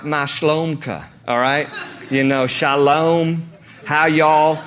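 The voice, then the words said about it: Mock Hebrew-tinged regional accent. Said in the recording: “he speaks with somewhat of a Hebrew, you know, like”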